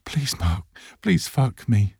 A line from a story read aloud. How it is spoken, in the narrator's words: Ash cries